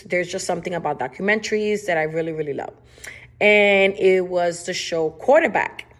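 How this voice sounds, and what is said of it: Spanish accent in English. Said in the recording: “Yes, I say it wrong. I've tried to say it the right way. It is my Spanish accent.”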